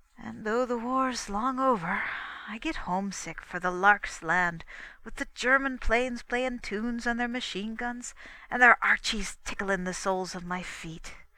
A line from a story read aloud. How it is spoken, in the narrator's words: he sighed